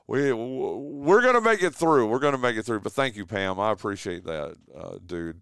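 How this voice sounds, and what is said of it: Strained, struggling voice. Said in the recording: “I'm struggling. You can probably hear it in my voice.”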